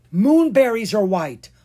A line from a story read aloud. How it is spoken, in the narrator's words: Anna cried